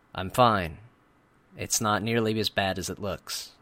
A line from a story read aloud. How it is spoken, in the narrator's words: I said